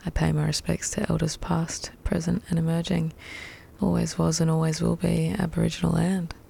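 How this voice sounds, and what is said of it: Croaky, hoarse voice. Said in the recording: “I've lost my voice singing along to that today... My voice is a little croaky”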